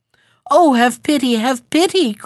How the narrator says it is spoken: cried the heron

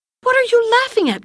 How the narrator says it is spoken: cried the little old man

